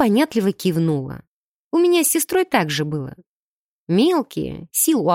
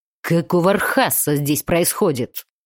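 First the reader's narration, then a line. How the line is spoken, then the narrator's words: Angry booming under vaults. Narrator (Russian): Зло громыхнуло под сводами храма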